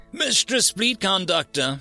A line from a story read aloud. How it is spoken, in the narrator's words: shouted the sensor diviner yet again